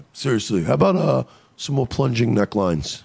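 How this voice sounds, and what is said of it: Trump impression sounding like Bernie Sanders. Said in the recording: “you could do a Trump impression ... That was more of a Bernie Sanders.”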